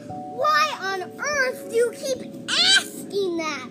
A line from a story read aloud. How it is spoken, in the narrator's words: yells